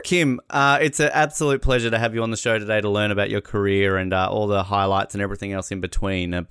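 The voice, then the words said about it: Australian accent. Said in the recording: “terrible Australian accent when it comes to pronouncing words”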